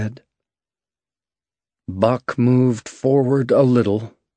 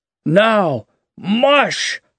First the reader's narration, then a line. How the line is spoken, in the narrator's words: cried Thornton